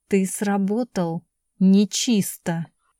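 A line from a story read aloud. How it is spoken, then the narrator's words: Insinuating voice over hissing phone. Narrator (Russian): В трубке раздалось шипение, голос вкрадчиво произнес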